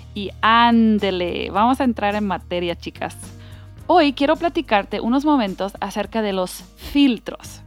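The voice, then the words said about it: Half American, half northern Mexican accent. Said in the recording (Spanish): “mi acento medio gringo, medio norteño de México”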